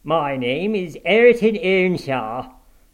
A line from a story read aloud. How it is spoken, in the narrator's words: growled the other